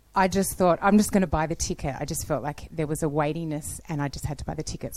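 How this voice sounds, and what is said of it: Australian accent. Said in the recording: “I'm from Australia, if you didn't already notice by the accent.”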